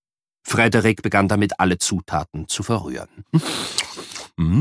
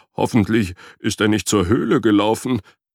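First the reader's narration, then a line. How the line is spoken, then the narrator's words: Whining. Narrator (German): jammerte Frederik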